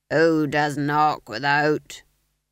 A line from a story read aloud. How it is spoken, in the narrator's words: he growled